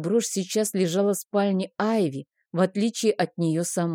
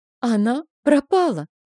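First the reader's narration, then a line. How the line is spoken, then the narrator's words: Forced out. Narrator (Russian): выдавила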